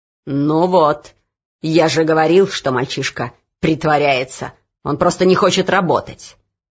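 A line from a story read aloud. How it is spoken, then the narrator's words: Growling overseer. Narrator (Russian): прорычал надсмотрщик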